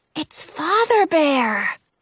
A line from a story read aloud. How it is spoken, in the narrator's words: I whisper